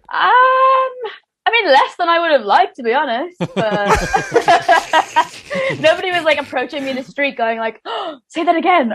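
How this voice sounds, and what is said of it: Irish accent. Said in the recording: “I was Irish ... Does the accent work with fellas?”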